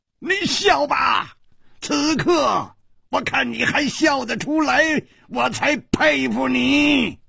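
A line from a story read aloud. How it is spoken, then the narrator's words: Wild laughter. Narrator (Chinese): 第三个人已经狂笑着 说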